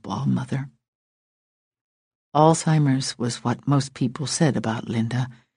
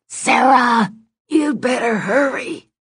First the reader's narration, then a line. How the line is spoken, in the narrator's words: Linda shouted again